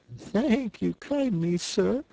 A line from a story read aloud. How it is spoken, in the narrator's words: said Toad in a feeble voice